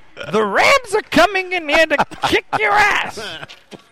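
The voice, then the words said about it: Imitates another person's voice. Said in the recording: “Gilbert Gottfried ... are you squinting your eyes and cheesing like as hard as you can? Because I think that helps the impression”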